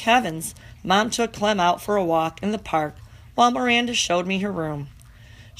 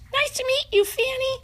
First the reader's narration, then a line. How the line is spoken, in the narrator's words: squeaked